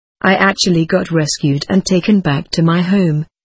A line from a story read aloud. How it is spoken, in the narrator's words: Ramon says